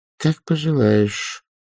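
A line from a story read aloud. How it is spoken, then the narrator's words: Quiet, smiling. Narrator (Russian): она улыбнулась про себя, сказала тихонько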